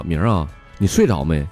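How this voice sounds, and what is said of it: Quiet, hushed question. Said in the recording (Chinese): “小声的问我”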